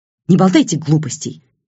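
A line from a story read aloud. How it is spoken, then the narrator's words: Sharp, cutting off. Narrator (Russian): резко оборвала его Черникова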